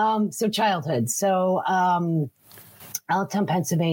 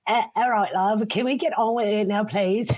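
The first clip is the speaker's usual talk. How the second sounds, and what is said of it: Put-on English accent. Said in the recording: “Do you want me to try my English accent?”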